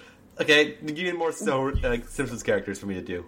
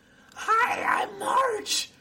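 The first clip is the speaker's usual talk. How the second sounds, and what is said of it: Cartoon character voice impression. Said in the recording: “That was better. ... That was better than Homer.”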